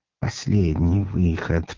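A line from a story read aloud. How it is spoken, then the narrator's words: Worried whisper. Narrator (Russian): прошептал ей озабоченно Коровьев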